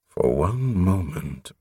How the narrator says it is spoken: Prothol murmured

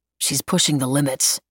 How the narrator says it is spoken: Jade muttered

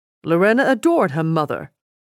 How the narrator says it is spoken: Rudolf replied stiffly

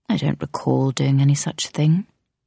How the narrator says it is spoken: he replied calmly

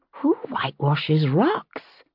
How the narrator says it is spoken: She said, instinctively lowering her voice, as though the cabin might hear her

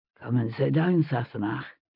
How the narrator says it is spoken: he murmured

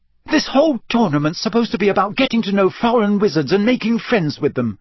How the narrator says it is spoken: said Hermione hotly

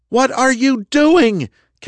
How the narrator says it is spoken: Kendra screamed, her voice barely audible above the sound of the helicopter

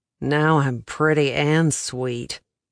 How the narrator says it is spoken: he groaned

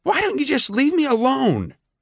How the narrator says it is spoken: snapped Mayfair

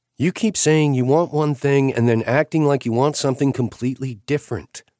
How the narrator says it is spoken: she said

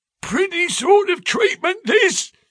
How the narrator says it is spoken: he cried

